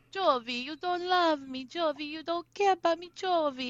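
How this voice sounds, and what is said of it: Imitates another person's voice and accent. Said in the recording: “your impersonations are getting so good as the season has gone on, like so good ... that's the accent I like really hone in on. And this week it was Yara”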